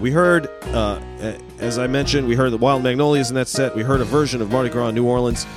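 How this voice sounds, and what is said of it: Voice in poor shape. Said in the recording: “my voice is not in great shape this week”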